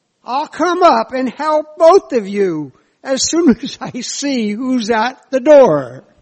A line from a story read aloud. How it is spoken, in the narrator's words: yells